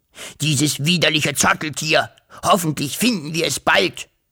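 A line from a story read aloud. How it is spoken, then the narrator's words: Hissed angrily. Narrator (German): fauchte er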